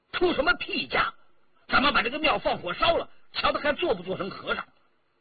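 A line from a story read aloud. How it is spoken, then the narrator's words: Furious. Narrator (Chinese): 张晋怒目圆睁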